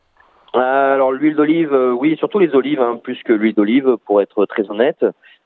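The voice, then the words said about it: Slight southern French accent. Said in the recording (French): “il y a un petit accent du sud chez vous”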